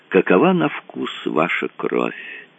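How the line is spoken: Thoughtful. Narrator (Russian): добавил задумчиво

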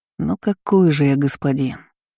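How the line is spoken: Heavy sigh. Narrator (Russian): тяжело вздохнул

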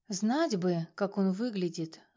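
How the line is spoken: Sigh. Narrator (Russian): вздохнула я

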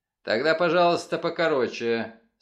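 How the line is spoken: Dry reply. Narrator (Russian): сухо ответил

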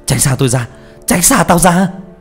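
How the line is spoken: Father screaming. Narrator (Vietnamese): ba vừa hét lên

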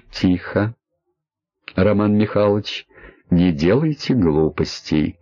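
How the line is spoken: Calm confident man. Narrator (Russian): Мужчина говорил спокойно и уверенно, как может говорить только тот, кто целиком владеет ситуацией

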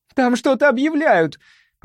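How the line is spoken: Shouted from below. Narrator (Russian): прокричала снизу Лайза

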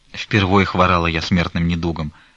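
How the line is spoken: Plain. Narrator (Russian): сказала Манефа

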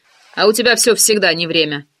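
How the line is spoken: Grumbled. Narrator (Russian): проворчал Валера

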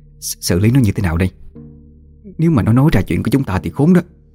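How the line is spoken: Still trembling. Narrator (Vietnamese): Mụ Thủy vẫn chưa hết run rẩy

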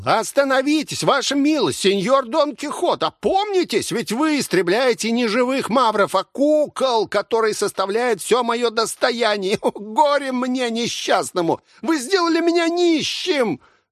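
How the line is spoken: Shout. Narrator (Russian): Маэссо Педро закричал

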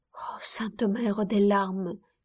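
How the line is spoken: Dying murmur. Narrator (French): murmurait-elle au moment de son agonie

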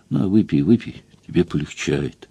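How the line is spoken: Soft tender murmuring. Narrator (Russian): тихо, ласково приговаривала

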